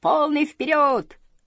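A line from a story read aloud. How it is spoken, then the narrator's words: Shouting. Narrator (Russian): опять закричала малышка Мю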